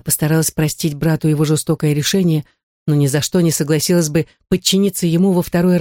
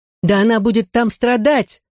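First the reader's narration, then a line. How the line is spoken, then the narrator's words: Shouting. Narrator (Russian): закричала Халида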